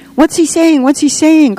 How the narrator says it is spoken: cried the children, almost in unison

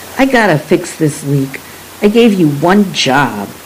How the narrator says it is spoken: Dad snapped

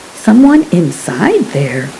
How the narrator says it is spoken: Rosie whispered

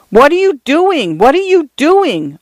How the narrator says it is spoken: Arthur cried

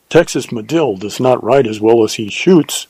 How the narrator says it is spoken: said Juan

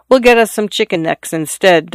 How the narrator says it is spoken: Dot said

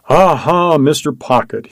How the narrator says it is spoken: cried out, as though to an auditor hidden somewhere above him

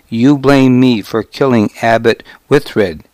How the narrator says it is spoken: I said

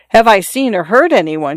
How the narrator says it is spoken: she cried

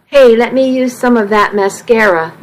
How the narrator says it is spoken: Missy said

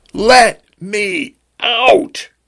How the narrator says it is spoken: he screamed

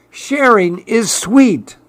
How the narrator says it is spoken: cried Clark the shark

